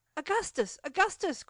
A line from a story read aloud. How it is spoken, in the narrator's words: cried he, his voice much changed by emotion